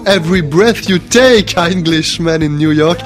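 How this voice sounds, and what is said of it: Put-on English accent. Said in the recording (French): “Je vais essayer de le dire avec l'accent.”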